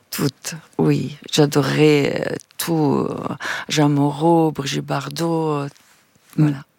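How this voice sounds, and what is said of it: Italian-accented French. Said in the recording (French): “encore aujourd'hui, j'ai un accent... Un accent, mais vous parlez parfaitement.”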